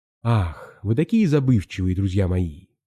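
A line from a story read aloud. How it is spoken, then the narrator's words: Sighing ship. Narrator (Russian): вздохнул корабль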